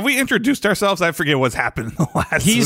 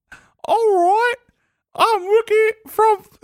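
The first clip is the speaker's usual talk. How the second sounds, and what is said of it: Mickey Mouse voice, English accent. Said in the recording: “I was going to do Mickey Mouse ... Mickey's got to do an English accent.”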